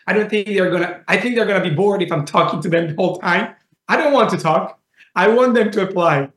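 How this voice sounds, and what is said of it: Heavy Italian accent. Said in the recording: “with a very heavy Italian accent”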